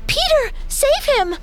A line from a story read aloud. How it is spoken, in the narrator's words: cried Wendy